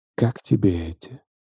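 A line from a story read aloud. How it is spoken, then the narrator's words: Whisper. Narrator (Russian): прошептала она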